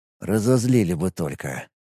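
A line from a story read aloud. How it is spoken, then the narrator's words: Gloomy agreement. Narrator (Russian): мрачно согласился Ит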